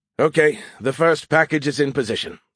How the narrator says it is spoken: announced in a weary tone

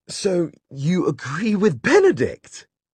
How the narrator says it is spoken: Charlotte cried

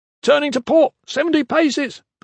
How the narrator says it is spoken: the foreman shouted

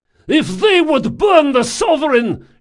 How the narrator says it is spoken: shouted Rodanoff

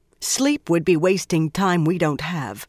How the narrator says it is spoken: Swan said firmly

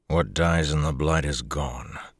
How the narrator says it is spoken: Lan said wearily

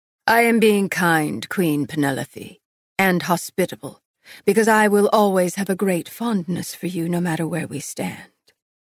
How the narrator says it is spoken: she said, her voice cool

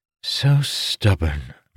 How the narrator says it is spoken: Mistress Rudal sighed

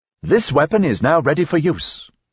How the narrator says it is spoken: the rifle said brightly

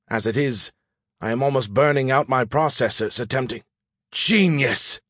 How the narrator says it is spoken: I exclaimed

